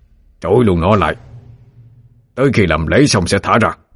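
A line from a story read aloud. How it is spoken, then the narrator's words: Shouting. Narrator (Vietnamese): Phan Văn Chung quát lên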